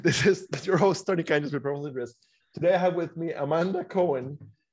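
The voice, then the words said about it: Announcer-style radio voice, pitch change. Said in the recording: “my radio voice ... I do appreciate the change of pitch as soon as you introduced me ... the radio voice”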